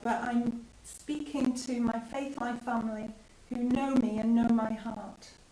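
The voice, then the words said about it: Voice fading, going hoarse. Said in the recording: “my voice is going out”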